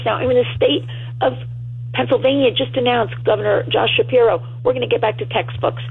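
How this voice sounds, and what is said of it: Strained, hoarse voice. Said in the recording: “I'm losing my voice because, you know, I've been speaking all week long”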